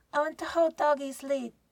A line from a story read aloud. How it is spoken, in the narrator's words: Rosie yells